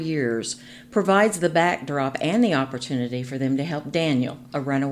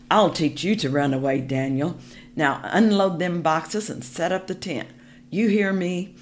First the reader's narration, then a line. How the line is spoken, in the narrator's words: the man growled